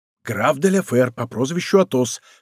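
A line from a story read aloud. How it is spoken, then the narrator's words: Whispered in ear. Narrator (Russian): шепнул Д'Артаньян на ухо Безмо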